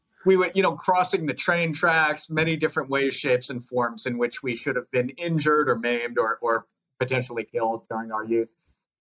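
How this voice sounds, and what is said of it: Long Island accent. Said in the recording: “my Long Island accent come out as I get more excited”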